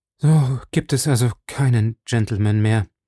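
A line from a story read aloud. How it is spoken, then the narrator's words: Moaning. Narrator (German): stöhnte sie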